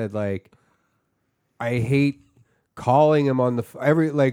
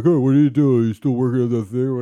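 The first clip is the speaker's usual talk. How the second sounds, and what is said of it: Imitates another person's voice. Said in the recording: “your impression of him ... it sounds exactly like him. That's how he sounds.”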